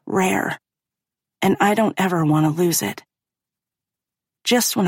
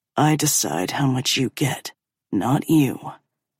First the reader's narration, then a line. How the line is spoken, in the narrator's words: growls